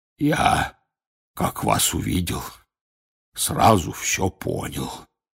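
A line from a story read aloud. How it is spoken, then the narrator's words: Hoarse voice. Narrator (Russian): раздался почему-то охрипший голос Хагрида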